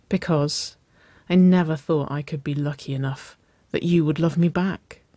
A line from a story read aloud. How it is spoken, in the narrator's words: Nicole breathed